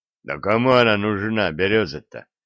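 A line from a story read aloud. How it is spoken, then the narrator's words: Scoffing grunt, strongman. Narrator (Russian): хмыкнул богатырь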